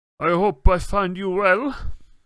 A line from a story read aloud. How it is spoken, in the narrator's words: said Madame Maxime in a deep voice